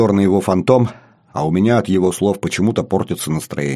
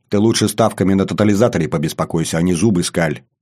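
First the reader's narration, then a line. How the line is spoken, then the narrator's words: Angry. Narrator (Russian): Зло говорю я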